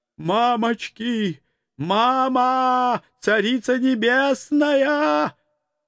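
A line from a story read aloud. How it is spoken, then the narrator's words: Terrified howling bear. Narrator (Russian): Взвыл медведь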